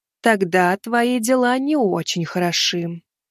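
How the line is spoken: Sad witch. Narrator (Russian): печально уведомила ведьма

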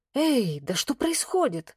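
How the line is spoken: Loud whisper. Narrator (Russian): громко зашептала Вероника

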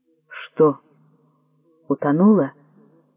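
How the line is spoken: Trembling question. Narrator (Russian): дрожащим голосом спросил Юкинага

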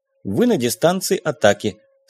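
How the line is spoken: Mechanical computer voice. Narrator (Russian): сообщил компьютер механическим голосом

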